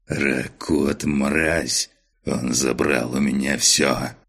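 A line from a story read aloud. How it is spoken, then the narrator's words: Hateful rasp, baron. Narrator (Russian): С ненавистью прохрипел барон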